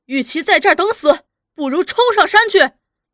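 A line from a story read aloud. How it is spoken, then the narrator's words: Battle cry. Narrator (Chinese): 一声呐喊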